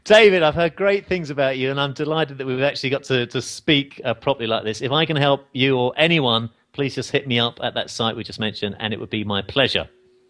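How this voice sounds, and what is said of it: Speaks with a noticeable accent. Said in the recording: “just because you have an accent, I already feel smarter than that just by listening to you”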